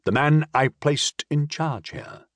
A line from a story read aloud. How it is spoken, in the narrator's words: he said, shaking his head sadly